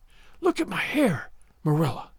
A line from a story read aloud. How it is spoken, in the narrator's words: she whispered